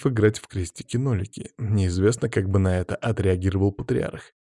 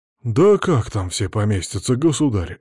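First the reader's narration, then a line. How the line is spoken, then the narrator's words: Exclamation. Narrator (Russian): воскликнул Сава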